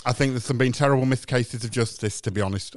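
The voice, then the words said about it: Character voice slipping into camp voice. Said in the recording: “I've lost my accent again. I keep slipping into gay voice.”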